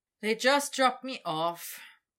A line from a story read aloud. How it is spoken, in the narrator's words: Victor said with a sigh